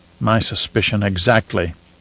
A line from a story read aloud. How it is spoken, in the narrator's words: Romber muttered